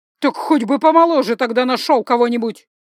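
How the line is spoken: Shouting. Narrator (Russian): прокричала герцогиня

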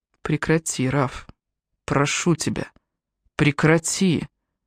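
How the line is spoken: Barely audible whisper. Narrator (Russian): едва слышно прошептал Джастин

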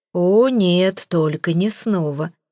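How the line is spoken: Groaning. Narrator (Russian): простонал я

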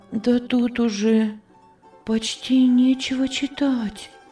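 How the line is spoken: Whisper. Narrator (Russian): прошептала Анна

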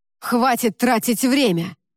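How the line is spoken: Irritated man. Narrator (Russian): раздраженно произнес мужчина

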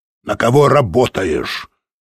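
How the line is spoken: Stern question. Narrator (Russian): строго спросил англичанин

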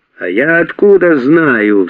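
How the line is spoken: Yelling back. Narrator (Russian): в свою очередь заорал на него Арон

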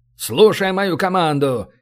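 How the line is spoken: Barked command. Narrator (Russian): рявкнул он

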